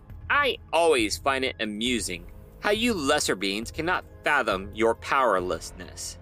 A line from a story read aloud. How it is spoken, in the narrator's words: he snapped